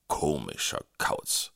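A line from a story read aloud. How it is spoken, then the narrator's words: Growled. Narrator (German): knurrte Vogelsang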